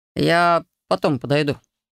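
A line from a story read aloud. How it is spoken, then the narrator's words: Uncertain promise. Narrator (Russian): неуверенно пообещал друг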